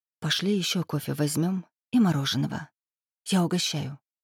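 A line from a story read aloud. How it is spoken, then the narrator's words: Strained whisper. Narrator (Russian): сдавленным голосом прошептала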